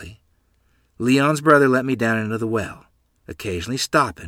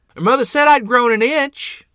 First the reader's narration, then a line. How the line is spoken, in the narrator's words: shouted up the well proudly